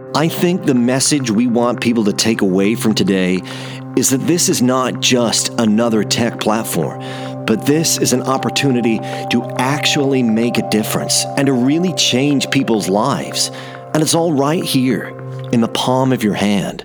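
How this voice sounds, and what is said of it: Put-on American accent. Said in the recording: “these are some of my US accents.”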